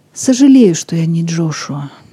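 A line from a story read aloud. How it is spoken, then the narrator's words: Quietly said after someone. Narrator (Russian): негромко сказал он вслед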